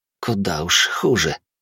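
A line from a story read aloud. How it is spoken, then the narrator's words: Young man mumbling. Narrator (Russian): пробормотал юноша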